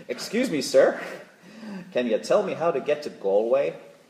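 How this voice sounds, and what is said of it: Put-on American accent. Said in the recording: “Excuse my American accent”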